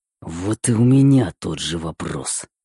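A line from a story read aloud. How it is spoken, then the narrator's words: Hissing. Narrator (Russian): прошипел я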